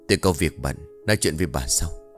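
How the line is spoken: Whisper. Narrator (Vietnamese): Ông thì thầm

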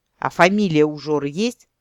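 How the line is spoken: Irritated question. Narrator (Russian): раздраженно уточнил

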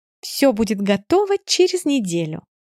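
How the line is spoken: Cheerful chirping. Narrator (Russian): радостно щебечет Жози

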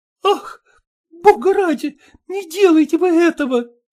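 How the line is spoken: Daughter moaning. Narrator (Russian): простонала дочь

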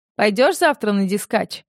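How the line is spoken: Snort. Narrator (Russian): фыркнул

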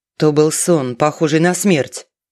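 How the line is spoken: Sudden deep bass roar. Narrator (Russian): Неожиданным басом взревел

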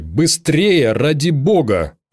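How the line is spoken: Irritated. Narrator (Russian): раздраженно сказал он

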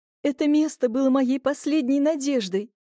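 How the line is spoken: Sobbing young woman. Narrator (Russian): всхлипнула девушка

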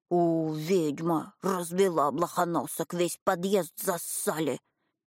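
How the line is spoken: Woman hissing. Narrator (Russian): она зашипела

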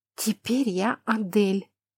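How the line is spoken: Breathless exhale. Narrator (Russian): выдохнула я

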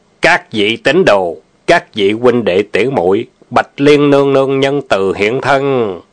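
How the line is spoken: Loud burly man. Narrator (Vietnamese): Một hán tử tráng kiện lớn tiếng nói

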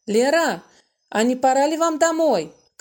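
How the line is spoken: Shout to another room. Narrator (Russian): крикнул Володя в приемную

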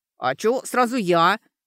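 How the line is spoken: Grumbling. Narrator (Russian): проворчала Сашка

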